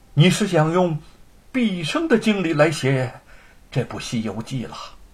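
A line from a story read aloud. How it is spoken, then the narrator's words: Amazed exclamation. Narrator (Chinese): 沈坤惊叹的说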